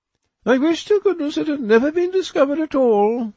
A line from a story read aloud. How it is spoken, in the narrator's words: she exclaimed